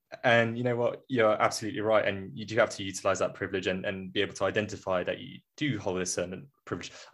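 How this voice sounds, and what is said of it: British RP accent. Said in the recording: “I do speak of a nice RP accent.”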